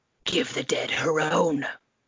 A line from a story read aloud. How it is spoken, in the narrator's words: a voice whispered in her ear